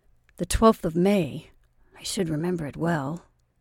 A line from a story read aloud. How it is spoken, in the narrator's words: muttered he, while many thoughts occasioned a momentary confusion in his mind